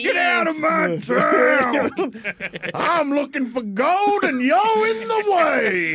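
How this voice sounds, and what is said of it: Old-timey western prospector voice. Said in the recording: “Midwestern accent... Kansas accent... He's going to talk like an old-timey prospect.”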